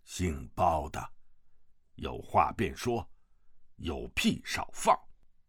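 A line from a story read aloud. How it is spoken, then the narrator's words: Stern, harsh. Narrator (Chinese): 厉声道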